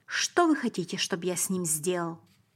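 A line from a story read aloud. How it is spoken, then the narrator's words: Agitated voice. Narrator (Russian): сказал Пилат взволнованным голосом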